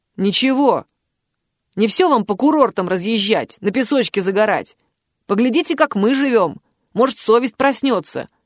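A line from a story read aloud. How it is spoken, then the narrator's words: Angry growl. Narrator (Russian): рыкнул водитель в ответ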